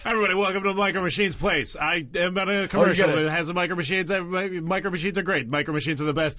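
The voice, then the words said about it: Fast-talking Micro Machines commercial guy. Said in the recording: “that really fast-talking guy ... You do an impression of the Micro Machines guy ... You got to open your mouth wider ... faster.”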